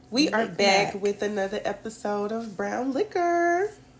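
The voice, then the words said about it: Polished customer service voice. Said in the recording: “Why you always gotta sound like the white chick around the corner? ... Just turn off the customer service voice. ... Why do I got to have the customer service white lady voice?”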